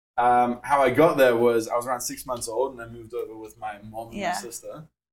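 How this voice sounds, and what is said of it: South African accent. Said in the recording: “you can hear from my accent, obviously from South Africa.”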